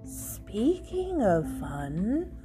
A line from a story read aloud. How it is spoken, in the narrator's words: whispered